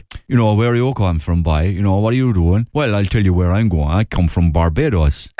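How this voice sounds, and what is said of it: Put-on Cork accent. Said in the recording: “the Cork accent is in Barbados ... it's like a Cork accent, no?”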